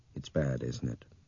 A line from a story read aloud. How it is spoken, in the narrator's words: Brian asked in a low voice